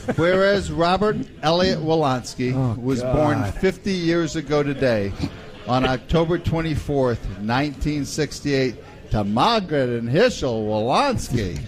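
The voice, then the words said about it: Bad put-on Yiddish accent. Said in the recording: “Is that your Yiddish accent? ... like the worst roadshow Fiddler on the Roof I've ever heard.”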